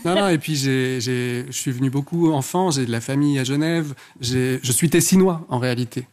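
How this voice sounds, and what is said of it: Strong Swiss Italian Ticino accent. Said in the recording (French): “D'où l'accent ... C'est cet accent à couper au couteau ... Du lac de Lugano”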